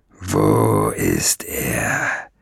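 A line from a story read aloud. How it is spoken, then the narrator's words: Growling. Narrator (German): knurrte Nesselbrand noch einmal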